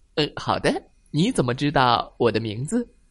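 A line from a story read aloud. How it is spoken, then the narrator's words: Big man, smiling chuckle. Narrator (Chinese): 大块头男人也报以微笑，呵呵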